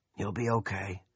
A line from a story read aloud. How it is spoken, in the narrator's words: a raspy, plugged-up voice said